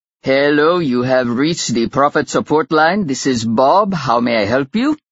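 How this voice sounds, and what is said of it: Cheery put-on Indian accent. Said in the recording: “said a cheery voice with a distinctively Indian accent”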